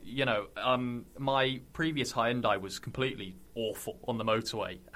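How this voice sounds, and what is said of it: Somerset English accent. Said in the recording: “as you can hear from my accent, I'm not from anywhere near Yorkshire. I'm originally from Somerset.”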